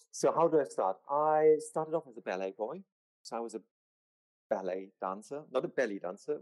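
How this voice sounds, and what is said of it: German accent. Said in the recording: “due to the German accent”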